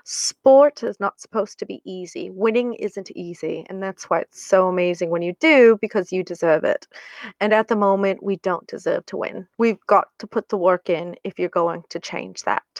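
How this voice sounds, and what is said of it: Put-on accent while quoting. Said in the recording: “Excuse my accent.”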